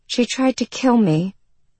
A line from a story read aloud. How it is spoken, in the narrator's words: the girl said in a flat voice